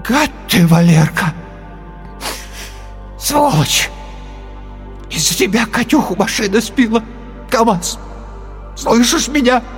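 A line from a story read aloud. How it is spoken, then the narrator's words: Hoarse, tear-choked voice. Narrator (Russian): охрипший, зареванный голос сказал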